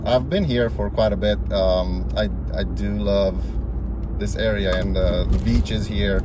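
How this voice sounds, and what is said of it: Romanian accent. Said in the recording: “what's up with this accent? ... I was speaking Romanian.”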